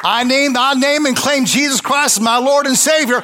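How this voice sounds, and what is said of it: Southern American accent. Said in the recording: “Does the Southern accent have you confused?”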